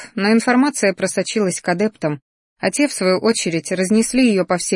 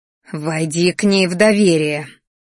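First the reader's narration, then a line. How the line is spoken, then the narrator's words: Woman's growl. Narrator (Russian): рычала женщина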